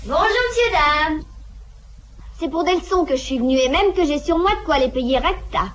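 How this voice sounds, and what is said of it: Strong, very vulgar accent. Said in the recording (French): “C'est une fille très vulgaire, monsieur. Affreusement vulgaire. ... A-t-elle un accent particulier ? ... Le mot est faible, il est à faire frémir.”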